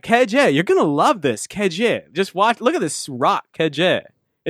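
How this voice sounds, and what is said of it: Weird Valley Girl New York accent. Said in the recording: “weird New York accent... almost like a Valley Girl New York accent. It's really weird.”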